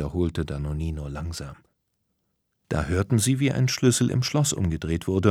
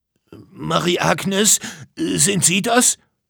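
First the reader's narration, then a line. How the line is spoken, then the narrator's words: Calling out. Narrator (German): rief der Erfinder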